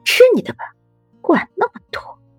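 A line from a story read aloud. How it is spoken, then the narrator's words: Quiet huffy grumble. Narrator (Chinese): 楚云薇小声哼道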